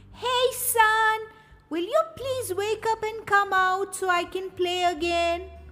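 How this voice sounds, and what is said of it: Shouting loudly. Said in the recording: “why are you shouting so loud?”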